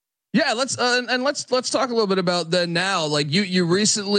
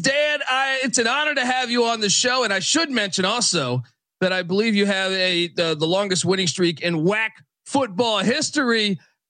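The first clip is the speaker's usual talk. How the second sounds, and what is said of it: Jazzed up radio announcer voice. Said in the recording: “You got that jazzed up radio voice going on.”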